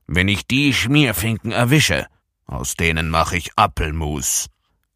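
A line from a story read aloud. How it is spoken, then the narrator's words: Grandfather's angry growl. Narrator (German): knurrte Opa Blom wütend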